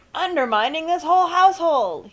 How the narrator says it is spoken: his father shout

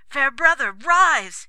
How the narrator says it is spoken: cried

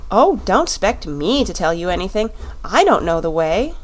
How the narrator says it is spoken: she said

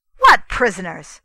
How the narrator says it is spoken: cried the prince

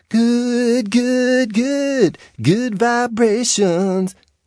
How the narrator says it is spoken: he sang in a surfer falsetto

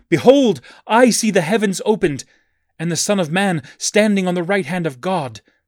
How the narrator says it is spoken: energized by the Holy Ghost, he exclaimed in rapture

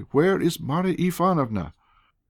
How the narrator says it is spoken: cried impatiently

